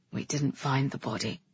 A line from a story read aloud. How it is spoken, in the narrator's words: Galen murmured